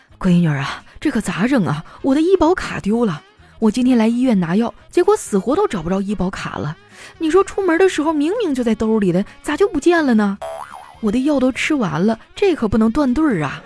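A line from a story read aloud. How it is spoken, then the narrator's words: Panting, over phone. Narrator (Chinese): 他在那头喘着粗气说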